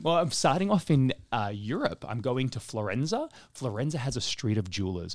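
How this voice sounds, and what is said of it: Speaks with a foreign accent. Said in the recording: “it's my funny accent”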